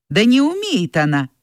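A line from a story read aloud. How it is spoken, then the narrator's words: Stern. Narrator (Russian): строго сказала Надя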